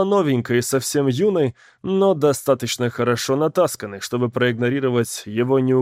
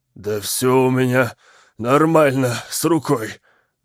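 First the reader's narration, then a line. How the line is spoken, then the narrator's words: Slurred, strained. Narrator (Russian): выдавил Уилл заплетающимся языком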